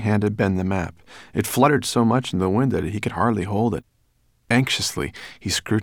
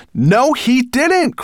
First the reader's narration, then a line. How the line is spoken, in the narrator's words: cried Ben